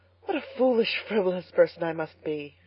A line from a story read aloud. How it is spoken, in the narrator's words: she sighed